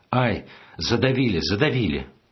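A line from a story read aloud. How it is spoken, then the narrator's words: Frightened instinctive scream. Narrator (Russian): Я испугался за него и, закрыв лицо руками, закричал инстинктивно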